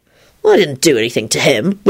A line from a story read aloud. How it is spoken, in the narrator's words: Lupin replied wearily